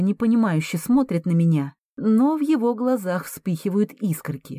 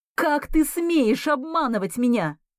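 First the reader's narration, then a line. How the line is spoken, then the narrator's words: Shouting. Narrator (Russian): крикнула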